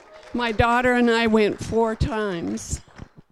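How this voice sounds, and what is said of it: Choked-up, emotional voice. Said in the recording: “she's getting all choked up.”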